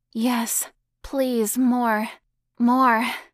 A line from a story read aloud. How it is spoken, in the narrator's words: gasped back